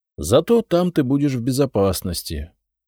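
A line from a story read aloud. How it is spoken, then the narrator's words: Sighing. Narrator (Russian): вздохнул я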